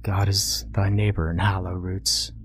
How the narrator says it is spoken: the boy muttered

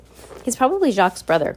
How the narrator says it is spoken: Quigley said

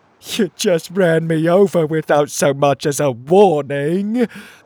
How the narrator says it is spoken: moaned the trapped crab

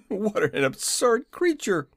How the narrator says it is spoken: exclaimed

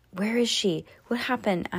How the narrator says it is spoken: asked the boy in a whisper

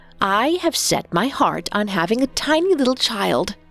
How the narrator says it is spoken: declared firmly

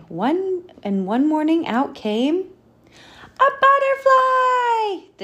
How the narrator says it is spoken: the children shouted

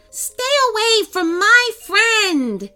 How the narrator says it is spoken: she shouted

